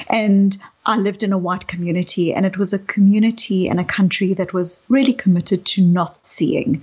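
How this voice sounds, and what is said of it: South African accent. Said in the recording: “you can hear from my accent that I um, grew up in apartheid South Africa. I was a white South African”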